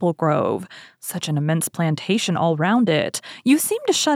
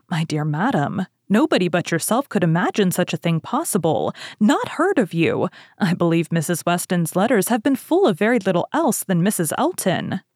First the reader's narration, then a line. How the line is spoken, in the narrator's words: Weston, with a very good grace, immediately exclaimed